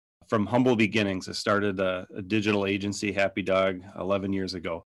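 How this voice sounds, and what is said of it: Minnesota accent. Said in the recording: “as you'll soon find out by my accent, that it started up in Minnesota”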